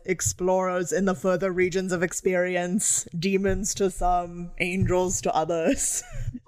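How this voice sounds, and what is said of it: Impression of Pinhead's voice. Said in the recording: “Great ... impersonation ... really well done.”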